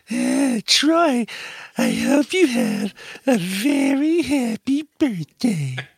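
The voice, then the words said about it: Imitates another person's voice. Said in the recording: “Tina Brand impersonation”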